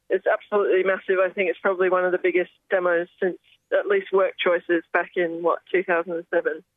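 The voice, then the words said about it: Hoarse, strained voice. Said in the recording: “I'm losing my voice from chanting so much.”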